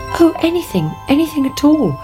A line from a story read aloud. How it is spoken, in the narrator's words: cried the princess